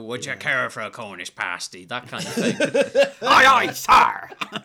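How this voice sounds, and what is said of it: West Country pirate accent. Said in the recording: “West Country accent... There's a pirate accent and you stick with it”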